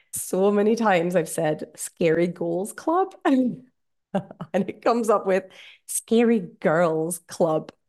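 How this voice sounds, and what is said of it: Scottish accent. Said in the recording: “my Scottish accent ... I don't know if that's a Scottish thing, goals and girls”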